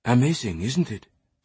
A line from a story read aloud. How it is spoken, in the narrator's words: Sophie whispered